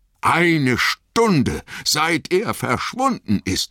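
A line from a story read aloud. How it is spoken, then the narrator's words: Bellowing. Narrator (German): brüllte Sam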